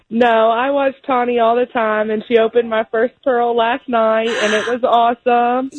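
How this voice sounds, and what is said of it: Slight Southern American accent. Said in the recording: “I hear a little southern accent, maybe? ... Almost southern.”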